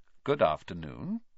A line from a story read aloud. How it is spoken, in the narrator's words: he said smoothly